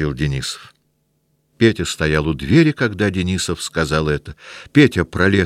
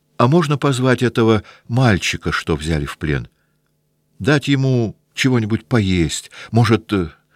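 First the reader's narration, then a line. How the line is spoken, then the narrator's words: Shy, nervous. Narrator (Russian): покраснев и испуганно глядя на офицеров, не будет ли в их лицах насмешки, он сказал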